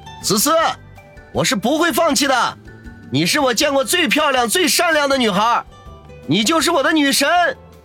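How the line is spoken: Distant loud shout. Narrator (Chinese): 远远的还能听见孙威大声的喊道

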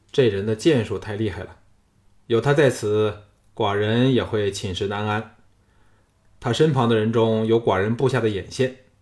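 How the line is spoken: Calm, detached. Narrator (Chinese): 小盘淡淡的说

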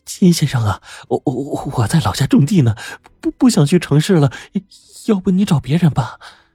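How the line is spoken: Trembling voice. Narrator (Chinese): 梁大姐 她声音抖得更厉害了

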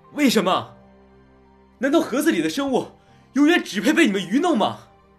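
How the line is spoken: Heart-rending roar. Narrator (Chinese): 林旭撕声裂肺的咆哮声

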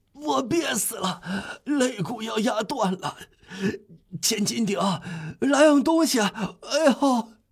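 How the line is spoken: Breathless, straining shout. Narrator (Chinese): 戈峰老爹喘着气喊道

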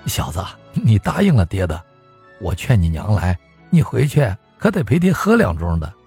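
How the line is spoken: Proud laughing father. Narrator (Chinese): 爹一笑得意的道

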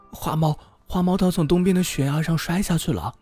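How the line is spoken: Alarmed shout. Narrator (Chinese): 麻雀妈妈扑过来大喊

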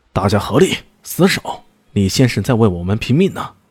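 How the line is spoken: Fierce command through gritted teeth. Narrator (Chinese): 严一龙咬了咬牙，喝令道

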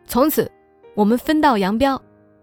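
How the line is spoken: Aggressive clamoring. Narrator (Chinese): 她叫嚣着

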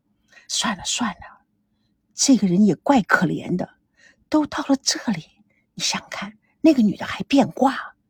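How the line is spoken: Quiet. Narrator (Chinese): 小声的说

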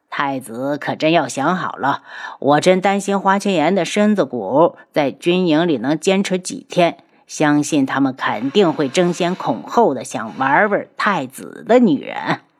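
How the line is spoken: Sneering. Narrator (Chinese): 东方铎冷笑

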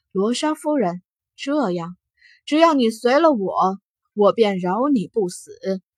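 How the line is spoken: Laughing. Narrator (Chinese): 他笑了

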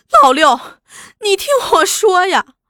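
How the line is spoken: Crying out. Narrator (Chinese): 只哭叫

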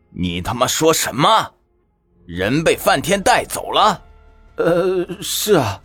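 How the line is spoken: Furious, menacing. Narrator (Chinese): 陈渊柏怒意汹汹，恶狠狠地盯着他道

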